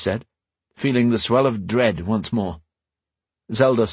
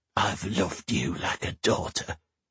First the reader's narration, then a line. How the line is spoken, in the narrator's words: Zelda whispered in her ear